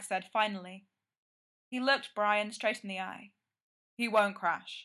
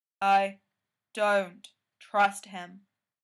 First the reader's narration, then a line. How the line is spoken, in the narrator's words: Frank said slowly, testing out the words as he said them